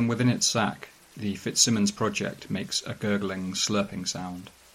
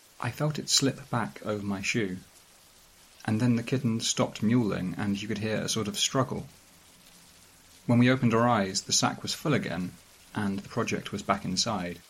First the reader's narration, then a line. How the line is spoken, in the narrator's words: The lead designer says, very quietly